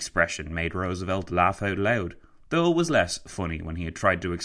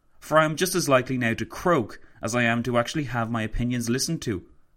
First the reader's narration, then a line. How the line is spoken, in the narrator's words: he exclaimed to Roosevelt